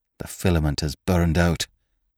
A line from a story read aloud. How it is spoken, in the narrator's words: muttered